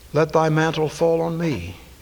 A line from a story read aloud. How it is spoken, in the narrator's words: Elisha said